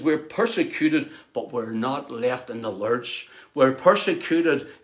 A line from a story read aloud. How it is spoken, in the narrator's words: says